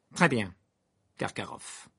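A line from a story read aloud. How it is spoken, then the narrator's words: Cold speech. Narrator (French): dit froidement Croupton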